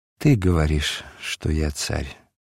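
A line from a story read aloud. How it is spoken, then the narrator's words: Weary sigh. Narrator (Russian): назарянин устало вздохнул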